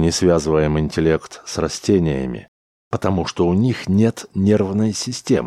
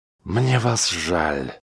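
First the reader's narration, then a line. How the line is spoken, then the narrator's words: Muffled voice. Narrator (Russian): глухо произнес Смит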